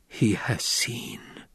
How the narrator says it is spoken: Jessica whispered

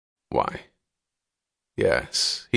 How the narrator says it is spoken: he said softly, astonished at the thought

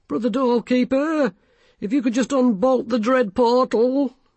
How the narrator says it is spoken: he quavered

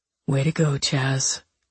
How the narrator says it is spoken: Reed murmured

